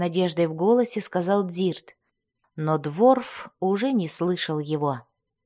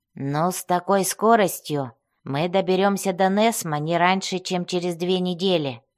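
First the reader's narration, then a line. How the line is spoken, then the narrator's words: Grumbling. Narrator (Russian): проворчал Бреннер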